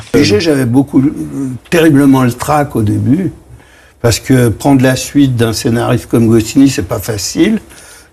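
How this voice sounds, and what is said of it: Parisian working-class accent. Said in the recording (French): “il avait cet accent parigot qu'on va reconnaître ... il avait cet accent parigot”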